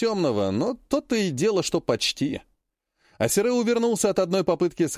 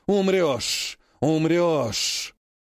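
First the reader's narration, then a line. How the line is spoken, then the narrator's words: Many voices hissing and grumbling. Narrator (Russian): пронеслось многоголосое полушипение-полуворчание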